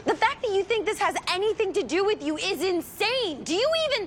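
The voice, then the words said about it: Yelling angrily. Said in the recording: “Oh, my God, I'm yelling at you. ... Yes, you are.”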